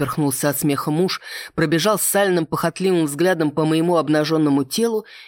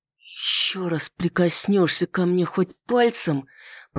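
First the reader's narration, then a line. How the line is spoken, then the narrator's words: Through teeth, clipped words. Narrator (Russian): процедила сквозь зубы, чеканя каждое слово, произнесла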